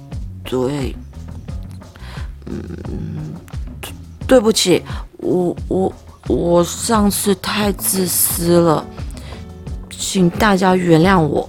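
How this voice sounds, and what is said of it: Quiet, hesitant small voice. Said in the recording (Chinese): “小声的重复”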